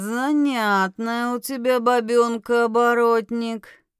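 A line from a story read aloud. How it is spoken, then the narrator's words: Drawled. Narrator (Russian): протянул толстый мужик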